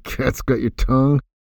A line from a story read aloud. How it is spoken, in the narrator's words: laughed, muttering